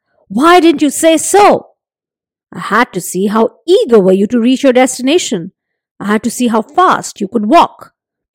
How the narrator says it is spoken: Nasruddin replied, smiling

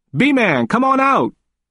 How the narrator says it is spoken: Michael shouted

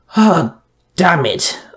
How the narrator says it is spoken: I groaned

